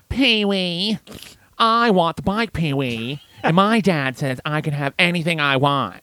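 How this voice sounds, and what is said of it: Imitates a movie character's voice. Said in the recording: “Can you do your impression of what's his name? ... Francis ... Yeah, it's pretty good.”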